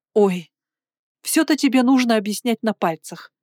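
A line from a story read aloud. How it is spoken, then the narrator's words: Sighing. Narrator (Russian): Кристина вздохнула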